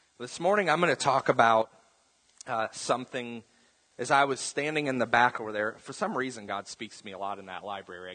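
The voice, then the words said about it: Rough, slightly hoarse voice. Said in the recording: “My voice is getting a little rough on me ... it's just allergies”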